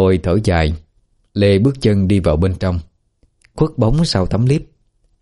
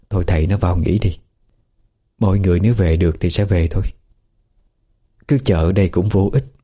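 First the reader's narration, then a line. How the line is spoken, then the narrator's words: Gentle coaxing. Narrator (Vietnamese): Bà Khôi hiểu ý chồng, bèn nhẹ nhàng khuyên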